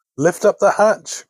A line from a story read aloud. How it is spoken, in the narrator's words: cried the grandmother